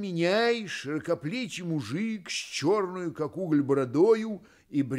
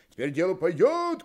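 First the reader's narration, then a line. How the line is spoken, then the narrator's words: Men shouting. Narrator (Russian): кричали мужики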